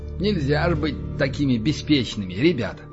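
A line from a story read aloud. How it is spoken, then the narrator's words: Muttered. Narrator (Russian): пробормотал Александр Одинцов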